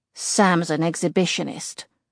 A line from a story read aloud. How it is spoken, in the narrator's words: he grumbles